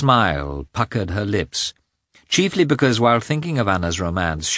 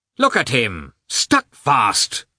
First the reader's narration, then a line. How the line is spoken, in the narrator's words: shouted the clerk angrily at the peasant